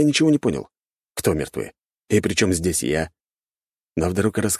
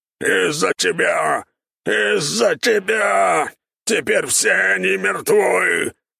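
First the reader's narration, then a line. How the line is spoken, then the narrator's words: Furious thunderous roar. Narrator (Russian): яростно взревел кабан, сотрясая само пространство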